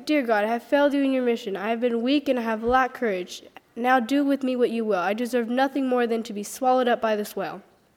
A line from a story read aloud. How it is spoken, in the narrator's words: Jonah cried out